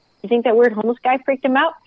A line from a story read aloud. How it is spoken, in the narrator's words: asked